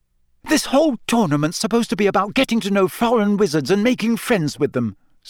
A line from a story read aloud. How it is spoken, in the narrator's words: said Hermione hotly